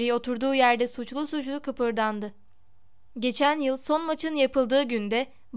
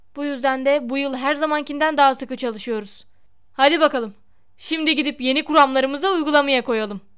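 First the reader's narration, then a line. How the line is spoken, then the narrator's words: Crying out. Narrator (Turkish): diye haykırdı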